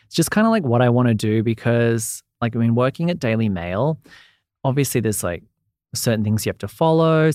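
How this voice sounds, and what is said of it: Australian accent. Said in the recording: “it's just the accent. I feel like in probably Australia, my voice is like annoying ... I love your accent ... you have a good tone”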